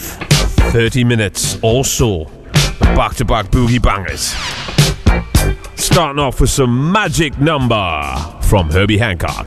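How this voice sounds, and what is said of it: Radio DJ announcer voice. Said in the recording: “Nice radio voice.”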